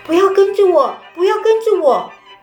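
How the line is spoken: Terrified shout. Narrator (Chinese): 奥瑞斯提亚惊恐地喊着

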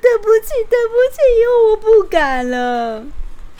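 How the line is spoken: Crying, muffled. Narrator (Chinese): 狮子居然捂着脸哭着说

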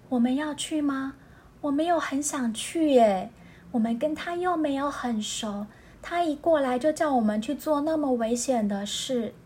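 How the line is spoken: Quiet question. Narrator (Chinese): 海獭小声问猫头鹰

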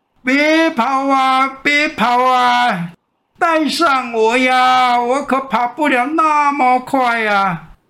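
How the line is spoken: Desperate shouting at full voice. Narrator (Chinese): 青蛙扯着喉咙拼命的叫喊

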